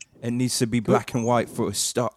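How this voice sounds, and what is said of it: Poor put-on British accent. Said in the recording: “That's a terrible British accent. ... It was almost there.”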